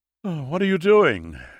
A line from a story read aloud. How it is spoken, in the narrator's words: Gamay said with a yawn